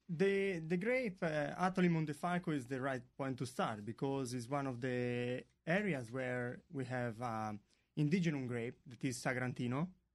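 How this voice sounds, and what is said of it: Noticeable foreign accent. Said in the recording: “Would you listen to that accent? ... Sorry for the accent.”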